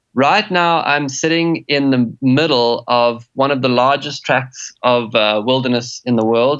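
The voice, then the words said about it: Noticeable regional accent. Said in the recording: “based on that accent, where are you from today?”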